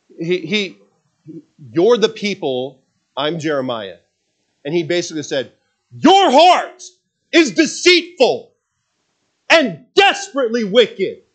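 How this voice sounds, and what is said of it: Yelling, loud preaching voice. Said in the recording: “why were you yelling at me? I'm telling you why I'm yelling at you here”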